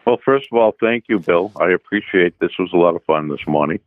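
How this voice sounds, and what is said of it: Boston accent. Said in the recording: “that's my Boston accent coming out”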